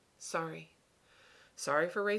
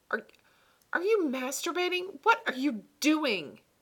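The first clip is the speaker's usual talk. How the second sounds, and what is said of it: Raised, shouting voice. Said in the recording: “raising my voice.”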